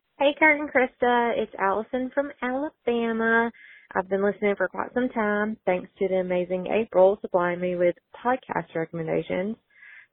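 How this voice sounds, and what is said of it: Thick Southern US accent, fast. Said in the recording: “she talks too fast and her southern accent is thick”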